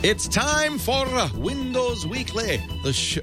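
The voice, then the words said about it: Put-on Scottish accent. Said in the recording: “I'm practicing my Scottish ... I'm practicing my Scottish accent”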